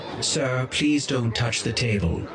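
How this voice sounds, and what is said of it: Pitiful, pleading droid voice. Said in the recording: “the card shark implored in a pitiful voice.”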